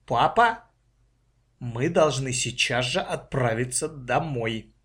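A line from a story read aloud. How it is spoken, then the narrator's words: Firm voice. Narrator (Russian): Маша твердым голосом сказала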